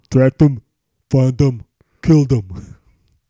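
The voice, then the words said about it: Imitates another person's voice. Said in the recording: “That's my best Stallone impression.”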